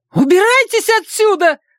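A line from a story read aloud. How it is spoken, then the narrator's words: Shrill scream. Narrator (Russian): завизжала Каролин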